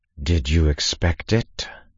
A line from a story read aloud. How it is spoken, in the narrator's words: Critton asked, saying each word through clenched teeth